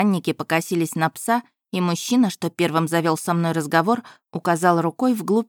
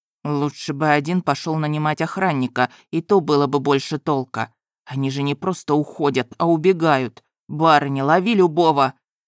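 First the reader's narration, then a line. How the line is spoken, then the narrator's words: Hissed inside the head. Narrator (Russian): Тео вновь прошипел в моей голове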